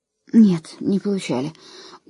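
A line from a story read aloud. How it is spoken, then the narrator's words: Tired. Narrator (Russian): устало отозвалась она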